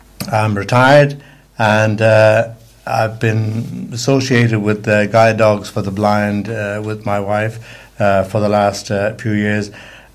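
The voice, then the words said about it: Irish Dublin accent. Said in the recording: “have an accent. It isn't the same one ... I was born in Dublin”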